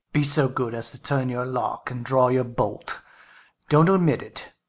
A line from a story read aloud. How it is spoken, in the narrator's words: added in the strangest tone